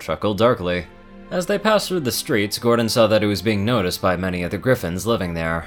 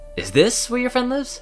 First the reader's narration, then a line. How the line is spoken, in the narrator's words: Gordon asked nervously